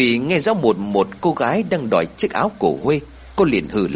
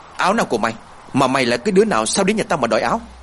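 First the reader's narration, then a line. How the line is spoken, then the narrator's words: Angry. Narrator (Vietnamese): Thủy tức giận nói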